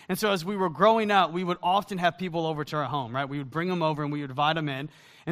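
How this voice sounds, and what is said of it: Southern US accent. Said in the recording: “my accent is not a Wisconsin accent. It actually is from the South.”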